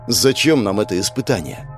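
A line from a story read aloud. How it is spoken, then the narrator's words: Plain. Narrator (Russian): спросил Денис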